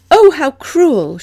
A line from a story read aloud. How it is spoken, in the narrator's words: she'd exclaimed